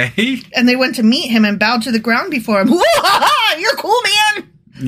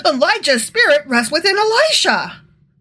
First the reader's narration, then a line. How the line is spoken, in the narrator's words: the group of prophets from Jericho exclaimed